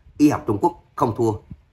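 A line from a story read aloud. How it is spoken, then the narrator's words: Man shouting loudly. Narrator (Vietnamese): một người đàn ông nâng cao giọng, hét lớn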